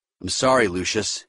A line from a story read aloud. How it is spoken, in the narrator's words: he said